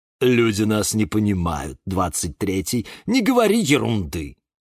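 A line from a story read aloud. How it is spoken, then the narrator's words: Snorting. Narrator (Russian): фыркнула Фельда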